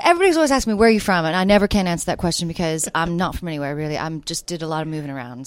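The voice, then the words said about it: Southern US accent with British tinge. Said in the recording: “you have a Southern accent. ... I do, ish. ... what's that accent? ... I'm from the South. No, there's something else. ... that's probably the British coming out as well. ... Texas barbecue meets British tea.”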